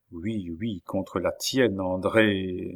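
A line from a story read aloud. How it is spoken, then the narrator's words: Murmured. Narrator (French): murmura Gilbert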